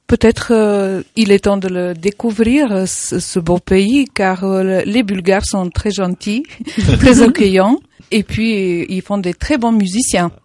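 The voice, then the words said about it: Slight Bulgarian accent in French. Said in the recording (French): “a un léger accent. Quand elle est arrivée, moi j'ai cru que c'était un accent espagnol, pas du tout ... je suis d'origine bulgare.”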